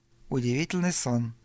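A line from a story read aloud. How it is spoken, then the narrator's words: Muttered. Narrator (Russian): пробормотала Рита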